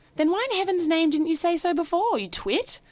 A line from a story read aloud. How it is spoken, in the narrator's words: cried Mr